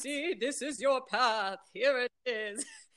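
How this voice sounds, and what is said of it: Booming voice, British accent. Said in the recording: “a booming voice ... a British accent”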